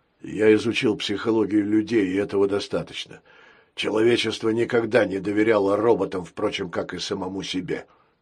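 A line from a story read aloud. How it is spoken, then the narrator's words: Sad wry chuckle. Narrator (Russian): грустно усмехнулся пират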